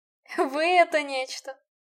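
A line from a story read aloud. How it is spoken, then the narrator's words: After laughing. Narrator (Russian): отсмеявшись, произнес король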